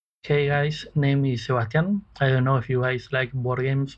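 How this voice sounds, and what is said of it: Argentinian accent. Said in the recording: “That is an incredible accent. ... Yes, a wonderful Argentinian accent.”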